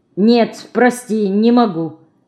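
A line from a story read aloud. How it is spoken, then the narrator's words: Curt, clipped. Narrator (Russian): отрывисто бросила Марина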